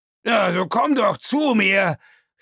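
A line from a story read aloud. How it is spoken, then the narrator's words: Calling out. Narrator (German): rief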